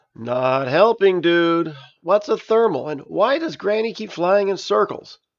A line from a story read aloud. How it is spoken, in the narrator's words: Juice groaned